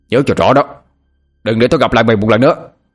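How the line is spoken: Angry shout. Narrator (Vietnamese): Bằng tức giận hét lên

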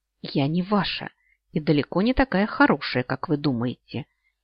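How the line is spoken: Very displeased voice. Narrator (Russian): известила Леоноса Ласгален, но очень недовольным голосом

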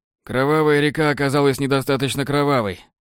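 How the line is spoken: Snort. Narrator (Russian): хмыкнул Уит

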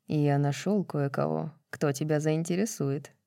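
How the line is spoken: Very quiet, secretive. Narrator (Russian): тихо, чтобы не слышала даже она, сказал

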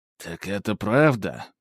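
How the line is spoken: Muttered. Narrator (Russian): пробормотал он

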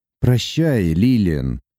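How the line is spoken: Flat colorless voice. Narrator (Russian): бесцветным голосом произнес он

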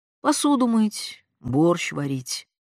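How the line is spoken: Tired mother. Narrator (Russian): устало говорила мать

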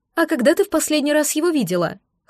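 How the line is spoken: Mocking, imitating intonation. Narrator (Russian): хмыкнул симбионт, подражая моей интонации

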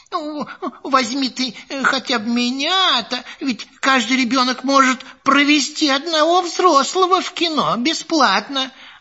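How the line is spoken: Pleading. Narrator (Russian): бабушка взмолилась

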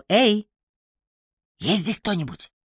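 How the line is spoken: Whisper. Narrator (Russian): он шептал

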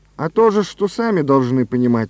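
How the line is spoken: Plain. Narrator (Russian): сказали ему

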